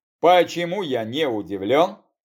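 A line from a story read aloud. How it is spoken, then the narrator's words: Grumbling. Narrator (Russian): пробурчал я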